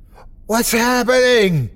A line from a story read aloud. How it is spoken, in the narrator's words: my mother screamed